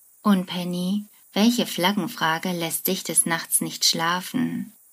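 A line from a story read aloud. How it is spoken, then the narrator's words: Deep-voiced question. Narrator (German): fragt mit einer tiefen Stimme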